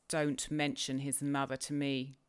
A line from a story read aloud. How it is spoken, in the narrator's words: said the master angrily